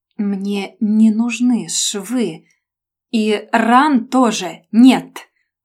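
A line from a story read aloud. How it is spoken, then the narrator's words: Through teeth, syllable by syllable. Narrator (Russian): процедил он по слогам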